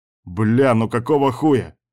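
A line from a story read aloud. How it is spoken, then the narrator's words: Howling from outside. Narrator (Russian): взвыл Кастер где-то снаружи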